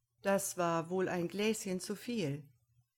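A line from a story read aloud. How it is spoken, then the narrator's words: Mocking remark. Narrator (German): stellte ihr Bruder spöttisch fest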